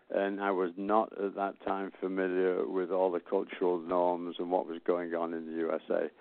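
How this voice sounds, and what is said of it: Manchester English accent. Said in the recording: “explain my accent. I was born and raised in Manchester, England.”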